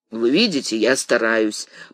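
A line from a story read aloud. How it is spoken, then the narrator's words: Grumbled. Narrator (Russian): проворчал Портос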